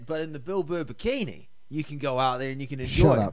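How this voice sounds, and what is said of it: Put-on Boston accent, New Zealand showing. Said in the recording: “That was a good Boston accent ... No, it wasn't. It wasn't. You still have a very thick New Zealand accent on top of it.”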